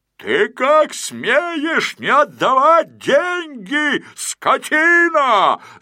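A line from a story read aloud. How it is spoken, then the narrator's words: Yelling policeman. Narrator (Russian): заорал полицейский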